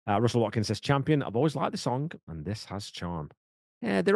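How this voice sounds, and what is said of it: Usual voice. Nothing is said of it.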